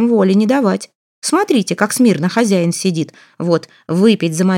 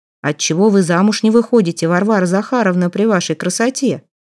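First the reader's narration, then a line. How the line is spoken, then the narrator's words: Plain question. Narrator (Russian): спросил лесничий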